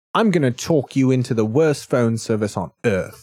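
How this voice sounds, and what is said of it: Jolly put-on British accent. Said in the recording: “I'm British ... Different accent, eh? ... I sound jolly”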